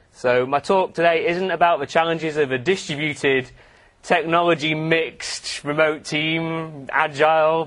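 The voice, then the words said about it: Northern Irish accent. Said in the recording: “As you may be tell from my accent, I'm not from round here. I live in Northern Ireland.”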